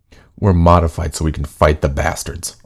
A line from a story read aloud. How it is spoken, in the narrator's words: I growled